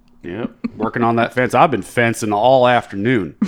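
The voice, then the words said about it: Rural redneck accent, dropped G's. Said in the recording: “You drop your G's on words... It's the redneck accent.”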